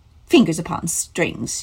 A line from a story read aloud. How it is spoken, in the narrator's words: she scoffed